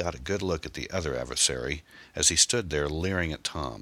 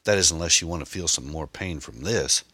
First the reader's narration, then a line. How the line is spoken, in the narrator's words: youth cried